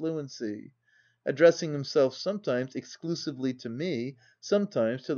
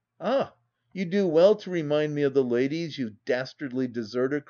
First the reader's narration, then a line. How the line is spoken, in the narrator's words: cried he